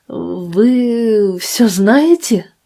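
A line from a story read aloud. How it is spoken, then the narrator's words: Stammering. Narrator (Russian): заикаясь, произнес Феликс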